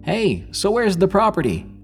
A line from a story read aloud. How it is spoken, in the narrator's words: He yelled back